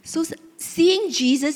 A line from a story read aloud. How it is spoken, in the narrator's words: he cried out